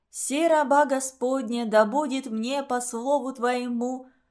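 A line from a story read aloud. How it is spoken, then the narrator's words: Loud hoarse sleepy chanting. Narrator (Russian): охрипшими сосна голосами громко выводили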